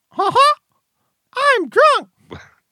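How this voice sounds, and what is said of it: Mickey Mouse cartoon voice. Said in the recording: “doing a Mickey impression”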